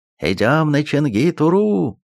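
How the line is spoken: Loud shout. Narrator (Russian): громко крикнул он, чтобы слышали все

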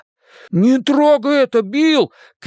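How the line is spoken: Shouted. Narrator (Russian): крикнул Бен

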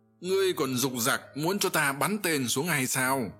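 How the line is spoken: Loud shout. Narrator (Vietnamese): Cáp Tô Văn đã hét lớn lên rằng

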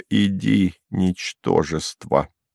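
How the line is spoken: Quiet. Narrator (Russian): проговорила тихо

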